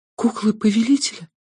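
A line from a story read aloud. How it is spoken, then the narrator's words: Whispered. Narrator (Russian): прошептала Алекс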